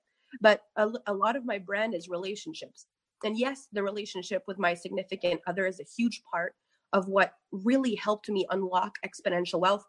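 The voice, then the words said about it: Congested, stuffy-nosed voice. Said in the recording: “i've got a bit of a cold so i'm going to be snotting all over you today”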